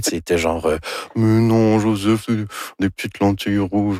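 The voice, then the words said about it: Imitates another person's voice. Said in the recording (French): “Ça, c'est mon imitation de Dorval. ... C'est très réussi.”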